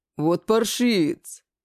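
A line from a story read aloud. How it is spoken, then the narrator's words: Stifled growl. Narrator (Russian): также сдавленно рыкнул Гек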